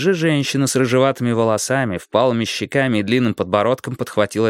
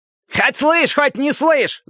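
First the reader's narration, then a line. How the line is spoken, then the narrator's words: Yelling. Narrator (Russian): завопил другой человек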